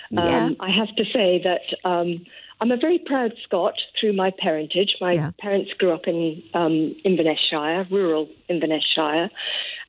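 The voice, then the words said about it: English-sounding accent. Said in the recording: “as soon as you listen to me, you'll think she sounds English”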